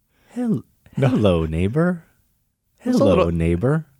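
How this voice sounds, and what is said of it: Mr. Rogers impression. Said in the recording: “How does Mr. Rogers? ... I really cannot obviously do an impression of him.”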